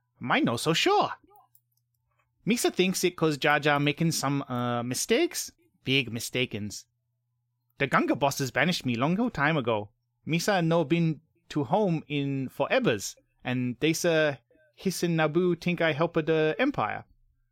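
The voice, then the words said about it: Jar Jar Binks character impression. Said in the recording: “my Jar Jar Binks impression ... that was good. Good impression.”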